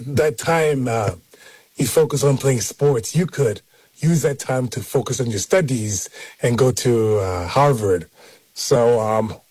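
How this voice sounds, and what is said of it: Imitated Nigerian accent. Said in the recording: “I'm gonna impersonate my dad's accent ... Nigerian perspective”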